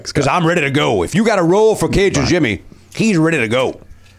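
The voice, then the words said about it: Inconsistent put-on Cajun accent. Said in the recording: “It's not a fully committed Cajun ... It kind of going in and out of character a little bit ... you can never keep ... A consistent accent going for more than 10 seconds”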